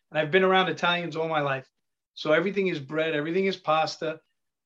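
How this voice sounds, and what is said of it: Italian-American Queens accent. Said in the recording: “I'm from Queens, but I have an Italian accent.”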